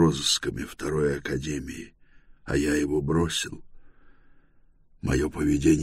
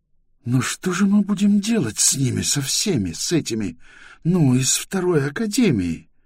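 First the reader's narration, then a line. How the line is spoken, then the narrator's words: Agitated. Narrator (Russian): Семик взволнованно проговорил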